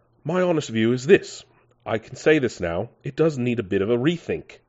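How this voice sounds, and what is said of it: Imitates another person's voice. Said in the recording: “Let me think if I can do a James May accent ... No, that's not that's not very James May. ... I thought I could do a James May impression. I can't.”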